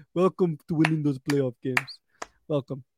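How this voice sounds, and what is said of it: Poor put-on accent. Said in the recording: “Sorry, that wasn't a good accent. ... It was a good attempt.”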